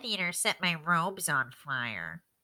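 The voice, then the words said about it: Nasal, pinched-nose character voice. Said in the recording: “I just think she sounds like this ... I do have to pinch my nose when I do the voice, otherwise it doesn't come out right”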